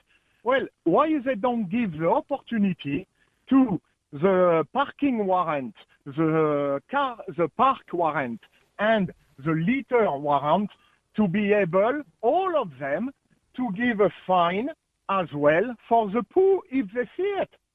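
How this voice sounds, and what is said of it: French accent. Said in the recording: “you have a French accent. So I'm assuming it's French”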